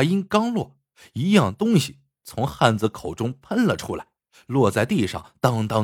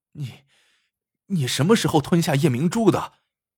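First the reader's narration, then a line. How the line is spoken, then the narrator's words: Man, faint smile. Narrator (Chinese): 汉子嘴角露出一丝微笑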